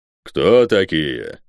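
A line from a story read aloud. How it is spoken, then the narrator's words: Deep bass voice, giant. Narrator (Russian): пробасил гигант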